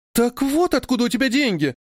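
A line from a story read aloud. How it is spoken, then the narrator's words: Exclaimed. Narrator (Russian): воскликнула Бин-Бин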